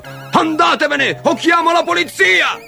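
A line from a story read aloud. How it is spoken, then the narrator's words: Indignant father shouting. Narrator (Italian): Indignato, il babbo di Timothy gridando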